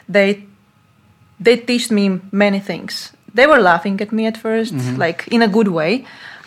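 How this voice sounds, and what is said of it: Speaks English with a non-native accent. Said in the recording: “Of my accent, of my pronunciation”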